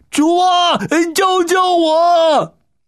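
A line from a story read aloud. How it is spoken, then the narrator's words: Panicked loud shout. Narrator (Chinese): 这一慌乱 一边大声的喊叫着说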